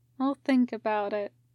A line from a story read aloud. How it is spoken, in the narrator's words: Tim murmurs